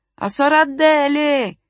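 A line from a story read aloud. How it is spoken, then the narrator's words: Shouted again. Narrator (Italian): gridò di nuovo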